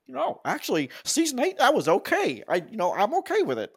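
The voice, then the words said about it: Put-on nerdy voice. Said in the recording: “what accent is that? ... It's a nerdy accent”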